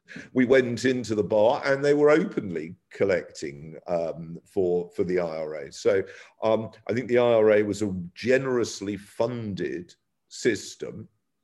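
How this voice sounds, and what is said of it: English accent. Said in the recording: “obviously I've got an English accent”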